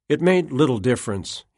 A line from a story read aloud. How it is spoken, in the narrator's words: said